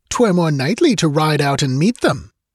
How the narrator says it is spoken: snapped the count

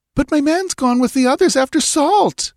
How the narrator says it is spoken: she wailed

